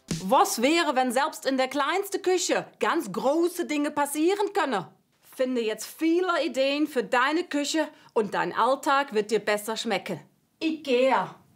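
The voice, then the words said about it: German with a Dutch accent. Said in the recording (German): “mit niederländischem Akzent ... niederländischen Akzent ... Falscher Akzent. Holländisch. ... Eher holländisch irgendwie.”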